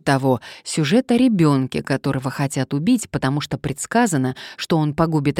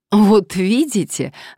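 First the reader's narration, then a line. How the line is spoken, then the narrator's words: Joyful, lawyer. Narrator (Russian): радостно подхватил адвокат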